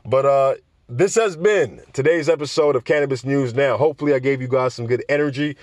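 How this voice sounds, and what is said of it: Tired, sleepy newscaster-like voice. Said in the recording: “my voice sounds a bit more newscaster-ish, but being that I'm very tired, I'm very sleepy”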